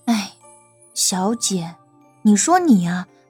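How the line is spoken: Sighing. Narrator (Chinese): 小环叹了口气，说道

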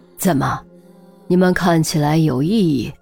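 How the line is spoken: Low, stern voice. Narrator (Chinese): 孔玉德沉声道

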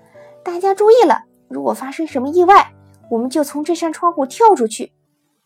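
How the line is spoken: Loud, unconcerned. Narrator (Chinese): 你一点也不在意，大声地说

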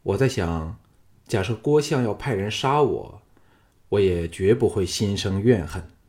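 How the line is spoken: Calm, flat. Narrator (Chinese): 项少龙淡淡的说

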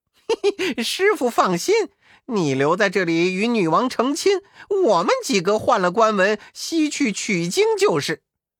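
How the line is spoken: Laughing. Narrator (Chinese): 悟空笑道

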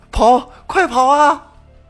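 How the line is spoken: Loud shout. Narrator (Chinese): 侯林奇则大喊一声说

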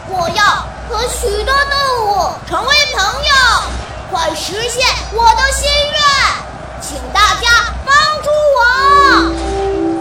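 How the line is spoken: Loud shout. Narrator (Chinese): 蓝小瑞冲着天空大声地喊起来

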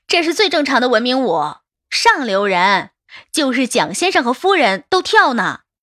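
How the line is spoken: Laughing. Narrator (Chinese): 白纸笑道

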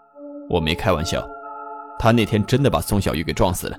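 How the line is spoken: Cold. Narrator (Chinese): 李某却冷冷地说

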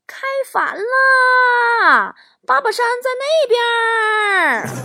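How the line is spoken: Eager shouting. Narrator (Chinese): 我妈都会非常热心的冲人高喊

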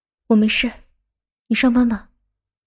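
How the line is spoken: Soft. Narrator (Chinese): 见他一脸的愤怒，就轻声的说道

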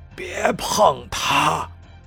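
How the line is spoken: Breathless, panting. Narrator (Chinese): 他气喘吁吁

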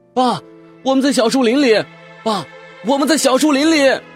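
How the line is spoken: Shouting. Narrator (Chinese): 我朝着他们大喊

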